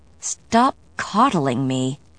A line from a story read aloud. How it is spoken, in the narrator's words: said through gritted teeth